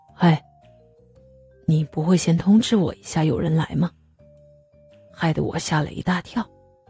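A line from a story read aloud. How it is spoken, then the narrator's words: Very quiet. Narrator (Chinese): 大川跟庭轩问声好后，马上把小 K 拖到旁边，小小声的跟他说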